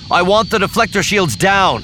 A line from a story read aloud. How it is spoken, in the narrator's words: Luke shouted back